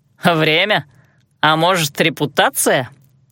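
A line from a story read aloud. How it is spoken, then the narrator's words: Short chuckle. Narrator (Russian): Алан хохотнул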